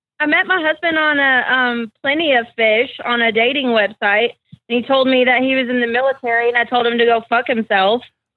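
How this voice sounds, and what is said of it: Tennessee accent. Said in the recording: “Is that accent from Alaska? Is that what people sound like from there? ... No, I'm actually from Tennessee ... I've never heard that accent before.”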